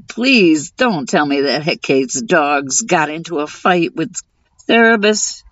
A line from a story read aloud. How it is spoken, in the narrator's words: Demeter groaned